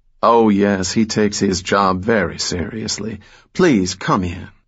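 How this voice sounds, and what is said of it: Melodic Georgia drawl. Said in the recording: “she said in a melodic Georgia drawl”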